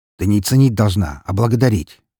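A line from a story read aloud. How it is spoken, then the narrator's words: Sharp correction. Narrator (Russian): довольно резко поправил он ее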